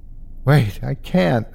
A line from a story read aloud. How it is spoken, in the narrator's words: begged